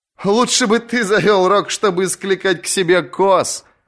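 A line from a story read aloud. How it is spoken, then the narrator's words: Laughing. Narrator (Russian): рассмеялась Аша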